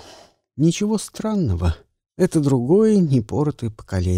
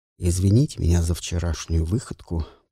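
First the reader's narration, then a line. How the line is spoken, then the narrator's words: Muttered. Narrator (Russian): пробормотал Дронго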